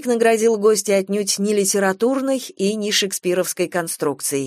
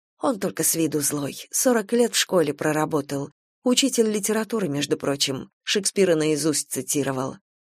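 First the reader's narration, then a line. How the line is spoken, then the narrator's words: Whisper. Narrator (Russian): напрягшейся Любе шепнула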